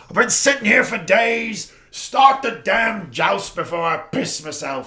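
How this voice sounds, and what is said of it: Imitation of King Bobby B's accent. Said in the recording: “that was a perfect Bobby B accent.”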